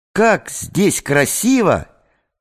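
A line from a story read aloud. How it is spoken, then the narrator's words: Exclamation. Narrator (Russian): воскликнула Надя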